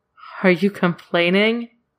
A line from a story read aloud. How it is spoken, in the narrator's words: Claude laughs a little